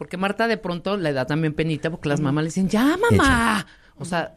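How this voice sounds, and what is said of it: Usual voice. Nothing is said of it.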